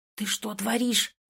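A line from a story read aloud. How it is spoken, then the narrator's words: Angry hiss. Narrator (Russian): зашипел он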